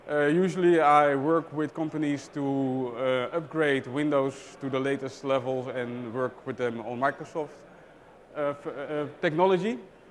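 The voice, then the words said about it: Dutch accent. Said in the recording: “I'm from the Netherlands, so you may hear from my accent that I'm not from here.”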